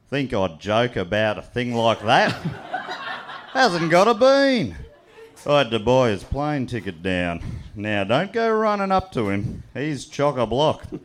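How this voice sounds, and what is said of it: Put-on Australian accent. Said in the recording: “an Australian accent... the Aussier the better... I normally talk with a pretty neutral accent, but I'll do my Australian one”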